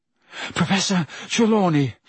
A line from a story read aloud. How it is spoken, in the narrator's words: Harry panted